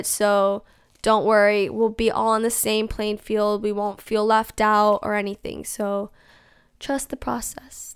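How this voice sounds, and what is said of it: Hoarse, fading voice. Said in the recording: “my voice is like, I'm losing my voice.”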